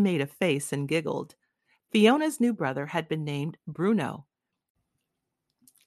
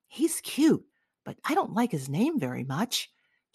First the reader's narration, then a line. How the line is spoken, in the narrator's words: She turned and whispered to them